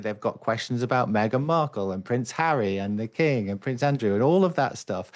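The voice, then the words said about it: British accent. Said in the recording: “I'm obviously a Brit ... when they hear your accent”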